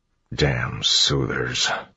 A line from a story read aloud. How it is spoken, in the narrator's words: Clubs muttered